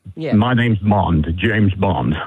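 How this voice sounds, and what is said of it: Pierce Brosnan as James Bond. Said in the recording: “do an impression, Pierce Brosnan.”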